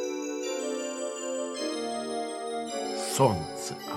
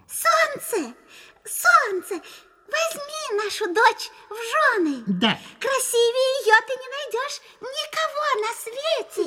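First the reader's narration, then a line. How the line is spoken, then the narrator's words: Tender squeaky voice. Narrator (Russian): мышь-мать пропищала нежным голоском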